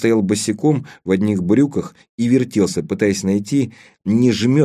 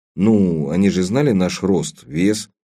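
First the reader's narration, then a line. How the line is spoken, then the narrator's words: Uncertain. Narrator (Russian): неуверенно сказал Леон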